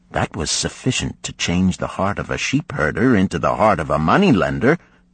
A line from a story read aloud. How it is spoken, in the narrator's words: he replied